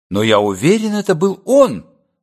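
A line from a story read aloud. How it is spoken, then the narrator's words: Defensive exclamation. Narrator (Russian): воскликнул Овал так, будто его пытались уличить во лжи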